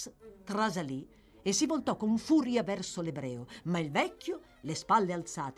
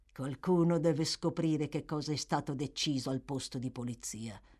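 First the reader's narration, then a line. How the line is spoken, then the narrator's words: Subdued tone. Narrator (Italian): disse il signor Sykes in tono sommesso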